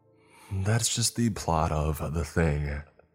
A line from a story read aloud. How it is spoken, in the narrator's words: Andrew said, his voice all serious